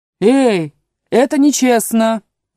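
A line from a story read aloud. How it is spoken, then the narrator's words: Shout. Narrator (Russian): закричал единорог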